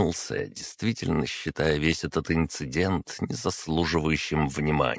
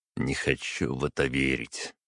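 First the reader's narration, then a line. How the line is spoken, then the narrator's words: Reply with heavy sigh. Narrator (Russian): ответил я, тяжело вздохнув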